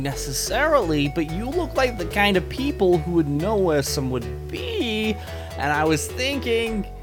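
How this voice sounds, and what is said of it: Put-on New Jersey accent. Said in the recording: “And other Jersey noises. ... based on the regionality of your accent”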